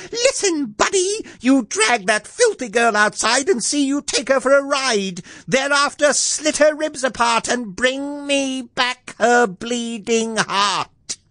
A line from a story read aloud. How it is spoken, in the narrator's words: She shouted at him